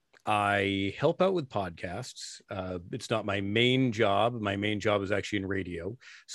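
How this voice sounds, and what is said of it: Deep polished radio voice. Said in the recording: “you have a radio voice ... The radio voice”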